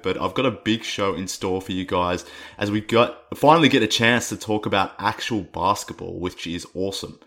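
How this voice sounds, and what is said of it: Rough, hoarse voice. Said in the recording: “my voice is a little rough right now... bear with me with my voice on this one. It's a little rough, a little bit more annoying than usual”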